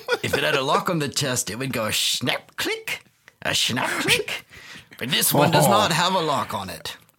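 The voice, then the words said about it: Put-on French pirate accent. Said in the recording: “now I'm going into a French accent, I don't know why ... me French pirate matey”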